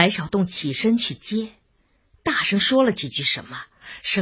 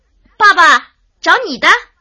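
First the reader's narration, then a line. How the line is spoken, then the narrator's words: Calling out. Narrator (Chinese): 又马上叫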